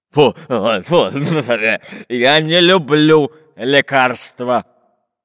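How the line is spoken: Deep bass grumble. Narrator (Russian): пробасил пират Буль-Буль

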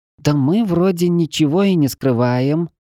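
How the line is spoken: Slightly offended drawl. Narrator (Russian): даже немного обиженно протянула Чеша

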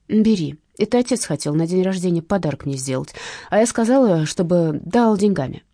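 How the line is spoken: Plain. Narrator (Russian): ответила Маша

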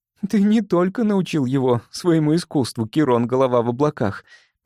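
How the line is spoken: Forced attempted laugh. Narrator (Russian): попыталась рассмеяться Элики

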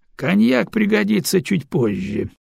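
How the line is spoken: Laughing. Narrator (Russian): рассмеялся Адиген

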